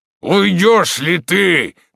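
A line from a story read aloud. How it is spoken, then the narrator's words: Shouted. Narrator (Russian): кричал Дагобер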